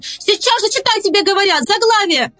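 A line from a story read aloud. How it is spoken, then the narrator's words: Shouting. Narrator (Russian): она кричала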